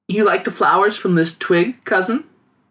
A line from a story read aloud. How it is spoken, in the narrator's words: Ying Ning giggled